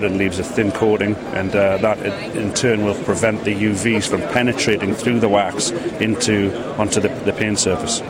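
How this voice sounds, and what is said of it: British accent. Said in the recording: “We're a British company, as you can probably tell from my accent.”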